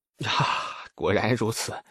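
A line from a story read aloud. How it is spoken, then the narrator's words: Mournful sigh. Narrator (Chinese): 李素哀叹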